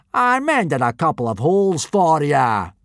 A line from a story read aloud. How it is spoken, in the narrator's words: boomed Gobber